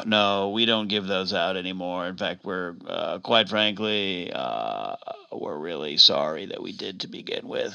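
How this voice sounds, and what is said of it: Slurred, drunk-sounding speech. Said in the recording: “You sound drunk.”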